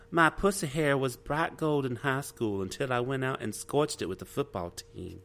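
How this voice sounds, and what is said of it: Woman's country accent voice. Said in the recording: “you have to do it in her voice. You have to do it in her country voice.”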